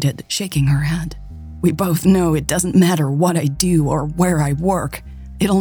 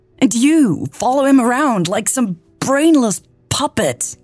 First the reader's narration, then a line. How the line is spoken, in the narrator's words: she yelled